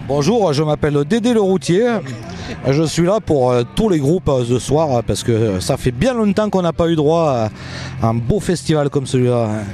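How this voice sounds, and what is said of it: Puts on a French regional accent. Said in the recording (French): “vous avez tous fait un accent”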